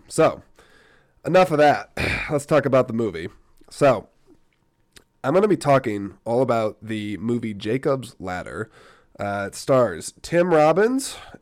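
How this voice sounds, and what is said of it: Unusual, off-sounding voice. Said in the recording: “why I sound funny ... you're going to have to listen to my funny voice”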